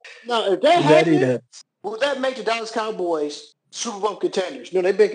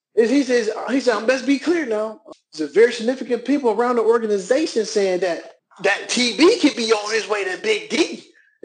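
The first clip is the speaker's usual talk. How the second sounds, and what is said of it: Imitates another person's voice. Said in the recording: “I'm saying this in my Michael Irvin voice.”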